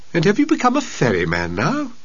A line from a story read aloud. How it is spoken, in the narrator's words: Siddhartha laughed warmly